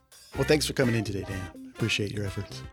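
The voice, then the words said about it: Radio DJ style voice. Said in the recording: “you and your DJ voice.”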